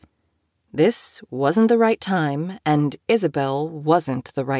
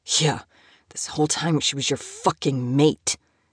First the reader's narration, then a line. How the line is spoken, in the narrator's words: Moses spat out